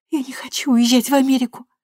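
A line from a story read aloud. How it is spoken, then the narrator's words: Tearful reply. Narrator (Russian): сквозь слезы ответила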